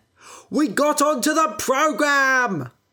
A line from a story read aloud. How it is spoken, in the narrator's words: I shouted